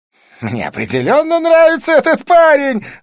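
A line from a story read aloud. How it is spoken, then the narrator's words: Exclaiming. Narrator (Russian): воскликнул Близнец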